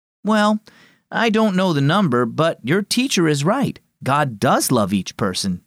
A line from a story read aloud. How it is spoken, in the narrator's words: Dad replied